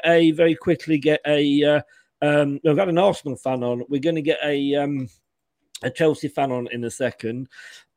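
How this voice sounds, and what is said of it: Hoarse, strained voice. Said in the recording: “I'm losing my voice here. I'm totally losing my voice.”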